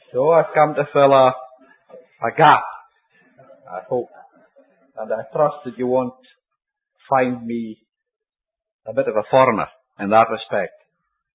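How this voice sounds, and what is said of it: Scottish accent. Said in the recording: “a good Scottish accent”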